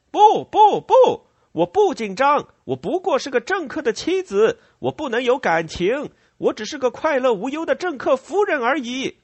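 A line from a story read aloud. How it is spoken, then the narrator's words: Shouting. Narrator (Chinese): 他大喊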